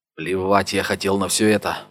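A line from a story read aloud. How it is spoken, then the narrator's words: Mumbling under breath. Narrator (Russian): бормотал он себе под нос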